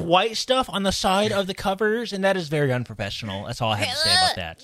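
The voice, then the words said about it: Nerdy put-on voice. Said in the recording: “Your nerd voice is great.”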